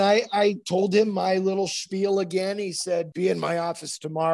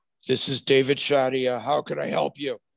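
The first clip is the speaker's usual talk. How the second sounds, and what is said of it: Raspy deep voice. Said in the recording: “raspy, deep voice”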